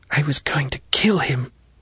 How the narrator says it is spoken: The girl whispered fiercely into the ground

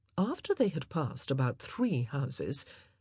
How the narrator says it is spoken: Anthony said in a strangely respectful voice

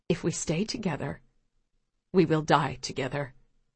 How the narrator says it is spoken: she says quietly

